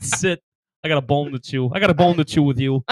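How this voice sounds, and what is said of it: Thick put-on Boston accent. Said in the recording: “we're a little too thick here with the Boston accent”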